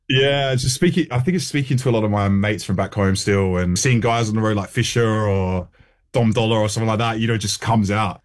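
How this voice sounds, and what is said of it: Slight accent with distinctive O sound. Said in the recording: “You still got that twinge though. You still got the accent, haven't you? It's the classic. Yeah. It's the nose. It's the homes. It's that O sound”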